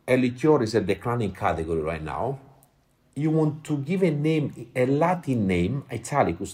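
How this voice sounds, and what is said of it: Italian accent. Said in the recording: “my Italian accent, people not always understand what I'm saying”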